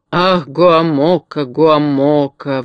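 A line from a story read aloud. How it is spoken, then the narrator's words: Sighing. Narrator (Russian): вздохнул Урфин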